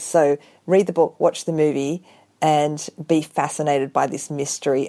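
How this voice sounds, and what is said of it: Australian accent. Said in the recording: “I love your accent too. That makes an Australian novel even better.”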